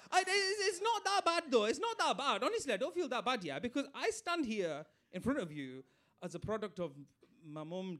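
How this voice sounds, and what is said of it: Bradford Yorkshire English accent. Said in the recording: “I'm from Bradford, as you can tell by my accent. And for those of you who can't understand it, because you're too London”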